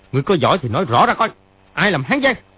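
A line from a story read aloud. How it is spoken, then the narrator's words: Dark-faced angry shout. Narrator (Vietnamese): Triệu Chí Kính sa sầm mặt, y quát lên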